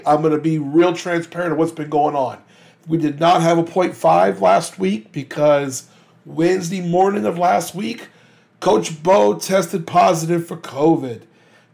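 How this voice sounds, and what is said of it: Rough, hoarse-sounding voice. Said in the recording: “I know I sound a little rough today”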